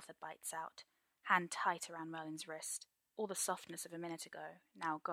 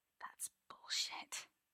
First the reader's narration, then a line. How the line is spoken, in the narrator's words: Merlin whispers